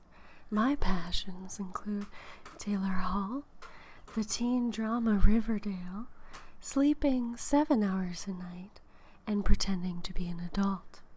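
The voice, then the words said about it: Soft, sexy public-radio announcer voice. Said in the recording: “my soft and sexy NPR voice.”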